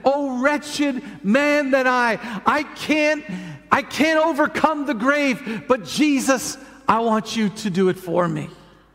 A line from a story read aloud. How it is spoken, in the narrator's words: cried out and said